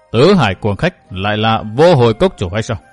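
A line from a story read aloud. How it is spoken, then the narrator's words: Cold. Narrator (Vietnamese): Giọng nói của Bách Liễu đại sư trở nên lạnh lùng nói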